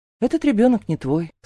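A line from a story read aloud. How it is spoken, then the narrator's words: Calm statement. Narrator (Russian): спокойно говорю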